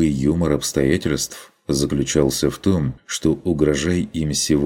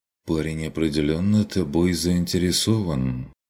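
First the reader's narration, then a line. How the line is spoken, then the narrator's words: Quiet remark. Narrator (Russian): заметил Курт негромко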